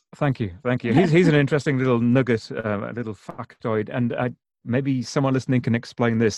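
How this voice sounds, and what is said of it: British accent. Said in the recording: “the beautiful British accent ... I do, as you acknowledge, still have a very British accent”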